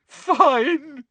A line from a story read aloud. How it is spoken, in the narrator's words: said Hermione, now sobbing into her hands again